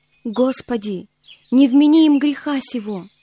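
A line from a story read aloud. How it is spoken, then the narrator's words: Loud exclamation. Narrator (Russian): воскликнул громким голосом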